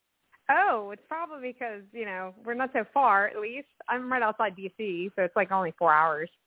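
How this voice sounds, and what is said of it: New York accent. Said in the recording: “I detect a back east accent ... You have a New York accent.”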